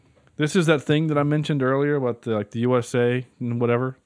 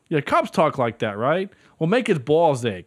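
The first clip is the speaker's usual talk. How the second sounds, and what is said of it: Boston accent. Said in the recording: “They're all from Boston. No wicked smart... I don't know why my accent went that way. It just did.”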